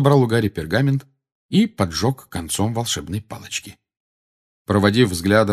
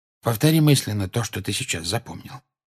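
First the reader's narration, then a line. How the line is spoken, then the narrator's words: Quiet. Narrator (Russian): тихо сказал ему Люпин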